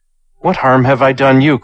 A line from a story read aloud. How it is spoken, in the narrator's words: cried Chu